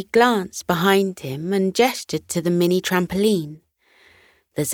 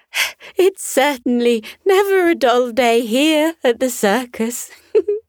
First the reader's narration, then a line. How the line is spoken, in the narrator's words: giggled